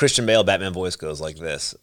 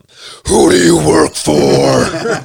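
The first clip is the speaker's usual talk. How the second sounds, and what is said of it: Batman character voice. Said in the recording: “Christian Bale Batman voice”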